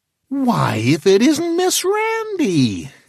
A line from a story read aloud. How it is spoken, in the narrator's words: exclaimed Minine